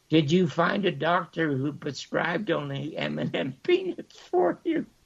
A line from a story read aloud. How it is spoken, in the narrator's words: She chuckled